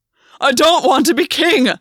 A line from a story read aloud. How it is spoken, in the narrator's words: Gwyn roared